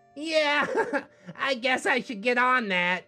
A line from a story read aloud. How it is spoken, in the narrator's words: he laughed